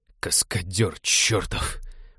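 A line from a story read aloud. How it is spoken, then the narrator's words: Moaning. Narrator (Russian): простонал Винни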